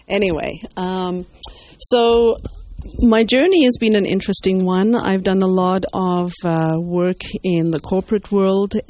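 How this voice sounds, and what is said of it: Zimbabwean accent. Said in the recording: “I'm originally from Rhodesia, Zimbabwe as it is now ... they tell me I haven't lost the accent”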